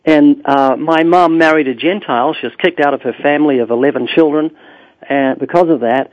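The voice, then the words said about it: Very slight New Zealand accent. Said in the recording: “emigrated to New Zealand. That's why I've got a very slight accent.”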